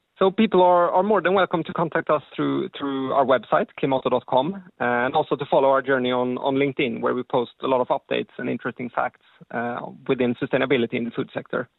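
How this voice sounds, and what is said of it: Scandinavian accent. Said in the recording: “my Scandinavian accent ... They're loving the accent.”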